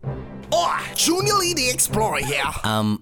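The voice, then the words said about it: Unconvincing put-on accent. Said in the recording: “That accent is sounding good at all.”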